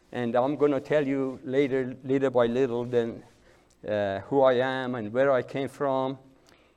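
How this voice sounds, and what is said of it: Speaks English with an accent. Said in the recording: “forgive my accent.”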